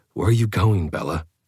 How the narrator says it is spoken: I choked back my humor ... trying to force my voice to sound composed as I asked

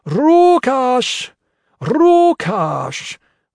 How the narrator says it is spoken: started shouting

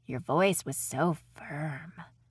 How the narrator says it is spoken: Ryan said in a dreamy tone

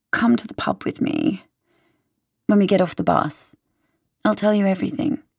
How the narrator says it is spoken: Scarlett sighs and says

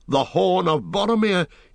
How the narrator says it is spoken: he cried

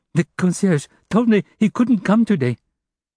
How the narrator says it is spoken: The servant stammered

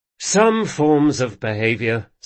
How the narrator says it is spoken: sighed Locke

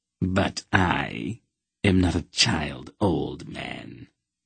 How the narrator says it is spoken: Nechek sneered

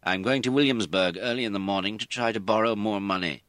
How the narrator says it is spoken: he said

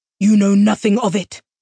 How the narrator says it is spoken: Nathanos spat

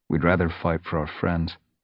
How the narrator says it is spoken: Ravenpaw added quietly

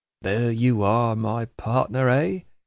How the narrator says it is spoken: he murmuringly repeats

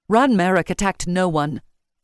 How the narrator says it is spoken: Yvain said fiercely

